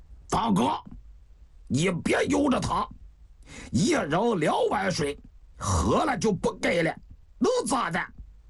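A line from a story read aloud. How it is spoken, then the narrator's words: Stern, sharp. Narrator (Chinese): 王向清厉声地说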